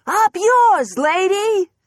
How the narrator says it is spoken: Clara shouted

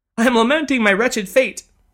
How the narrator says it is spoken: sobbed the lady, once again on the verge of tears

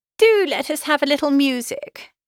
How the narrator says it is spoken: cried Miss Bingley, tired of a conversation in which she had no share

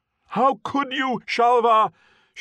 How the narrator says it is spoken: shouted

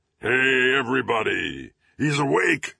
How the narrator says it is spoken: He bellowed

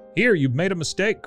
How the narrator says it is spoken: cried Bert

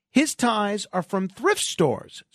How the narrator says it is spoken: Santos exclaims

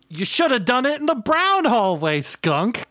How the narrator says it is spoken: Gumdrop yelled

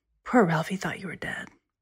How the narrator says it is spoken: She said in a lower voice to her mother

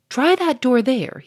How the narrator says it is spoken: cried to his men

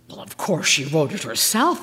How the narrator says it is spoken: I gasped

